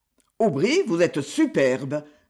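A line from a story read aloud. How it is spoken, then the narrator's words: Sniggering. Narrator (French): ricana Lionel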